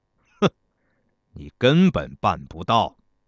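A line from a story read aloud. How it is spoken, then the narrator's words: Sneering. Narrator (Chinese): 公子娇师冷笑道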